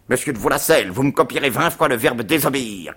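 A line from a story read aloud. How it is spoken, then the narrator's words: Man shouting. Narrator (French): cria-t-il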